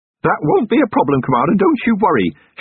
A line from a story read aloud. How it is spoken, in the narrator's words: shouted Feeney, with infuriating cheeriness